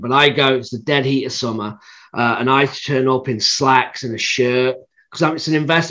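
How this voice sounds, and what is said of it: British accent. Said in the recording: “with my accent, the standout anyway, right? ... in the UK”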